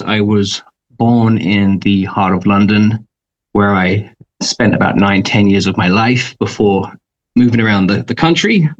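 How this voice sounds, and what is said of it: British accent. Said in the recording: “as you can obviously tell, like Nazneen, I have a completely different accent. I'm from overseas.”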